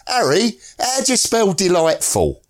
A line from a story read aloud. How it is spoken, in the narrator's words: a Cockney at the other end of our dugout shouted to his mate